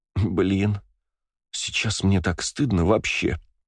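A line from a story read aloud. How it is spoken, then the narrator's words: Groaned in shame. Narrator (Russian): простонала Валькирия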